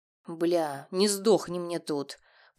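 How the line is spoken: Growl. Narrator (Russian): прорычал я

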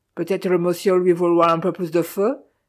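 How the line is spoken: Monotone voice. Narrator (French): dit-il d'une voix monotone

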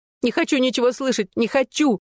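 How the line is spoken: Hysterical shriek. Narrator (Russian): завизжала Джессика

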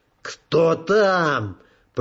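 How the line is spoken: Commanding growl. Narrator (Russian): прорычала Джоанна, забыв на мгновение, что она уже больше не капитан

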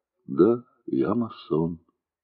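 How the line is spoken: Quiet. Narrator (Russian): тихо сказал

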